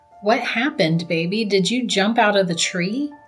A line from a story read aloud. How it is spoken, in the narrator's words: Laura asked Dennis